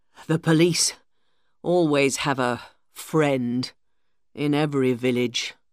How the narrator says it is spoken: Alex said sadly

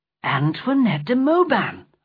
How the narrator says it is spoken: cried

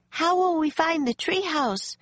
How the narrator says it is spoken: cried Annie

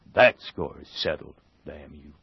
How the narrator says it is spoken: The half-breed muttered

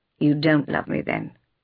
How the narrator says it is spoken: said sadly

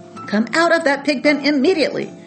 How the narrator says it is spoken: cried Mrs

